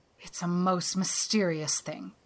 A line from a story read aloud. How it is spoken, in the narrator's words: groaned Marilla